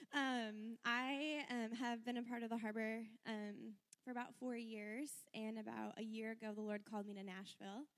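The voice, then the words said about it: Hoarse, strained voice. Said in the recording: “I lost my voice screaming this weekend.”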